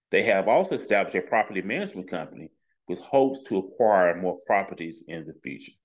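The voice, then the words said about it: Southern US accent. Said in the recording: “he got that down south accent”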